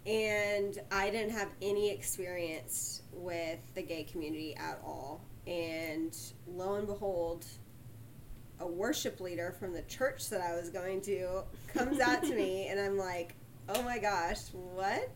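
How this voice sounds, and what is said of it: Texan accent. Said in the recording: “Sugarland, Texas. ... That's where she gets that great accent from.”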